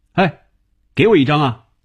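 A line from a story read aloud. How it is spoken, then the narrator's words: Calling loudly. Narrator (Chinese): 红军在他背后高声叫着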